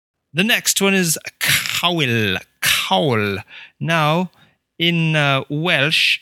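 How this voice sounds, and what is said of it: Usual voice. Nothing is said of it.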